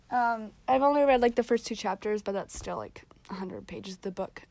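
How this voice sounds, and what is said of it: Strained, hoarse voice. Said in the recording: “Why do I keep losing my voice?”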